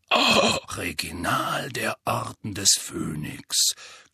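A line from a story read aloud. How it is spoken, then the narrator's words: Growl. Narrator (German): knurrte Moody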